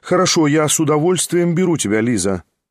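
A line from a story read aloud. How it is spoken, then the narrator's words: Quick, loud. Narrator (Russian): тотчас же громко прибавила она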